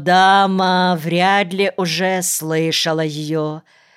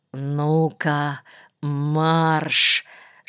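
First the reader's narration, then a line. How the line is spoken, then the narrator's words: Quick whisper. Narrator (Russian): шептанул он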